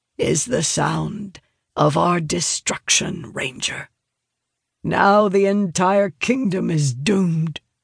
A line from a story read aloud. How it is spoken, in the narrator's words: Sylvania rasps, answering his question